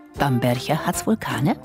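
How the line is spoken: Subtly lurking tone. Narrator (German): fragte dann mit zart lauerndem Ton in der Stimme

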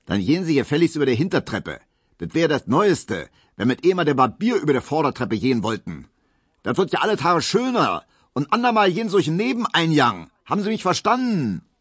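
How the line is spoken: Man bellowing after someone. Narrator (German): brüllte der neue Vizewirt der Pieseckes immer noch hinter ihm her

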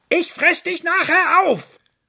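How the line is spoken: Calling after. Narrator (German): rief ihm der Fuchs hinterher

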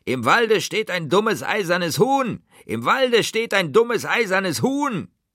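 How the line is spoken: Scornful screeching. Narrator (German): voller Verachtung schrien

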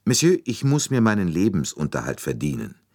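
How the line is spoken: Calm, slightly hard. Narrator (German): Sie sagte ruhig, aber mit einer Spur von Härte in der Stimme

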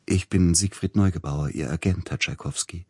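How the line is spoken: Gentle, sugary voice. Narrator (German): sagte mit sanfter Stimme der Mann an der Türe und lächelte süßlich

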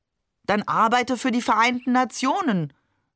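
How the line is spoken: Grandmother calling across table. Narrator (German): rief Oma trotzdem über den Tisch hinweg zu ihm

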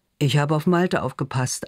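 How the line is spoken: Male answer, forced laugh. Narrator (German): antwortet er und versucht ein Lachen

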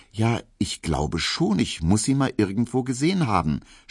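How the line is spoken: Stammered. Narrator (German): stotterte Emil Kubinke

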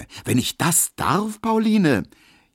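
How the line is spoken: Exclaimed. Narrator (German): rief Emil Kubinke

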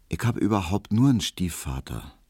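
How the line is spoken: Quiet. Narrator (German): sagte Hedwig leise

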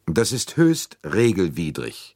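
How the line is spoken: Cold reply. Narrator (German): entgegnete Arbuthnot kalt

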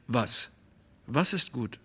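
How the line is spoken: Quick anxious question. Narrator (German): ich schnell und wohl auch ängstlich

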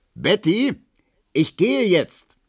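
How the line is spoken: Bellowing through apartment. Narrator (German): brüllte durch die Wohnung

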